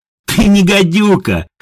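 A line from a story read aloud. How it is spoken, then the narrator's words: Doubled-over laughter. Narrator (Russian): хохотала Едвига, согнувшись пополам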